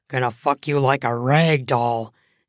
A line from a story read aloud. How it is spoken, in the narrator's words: he grunts out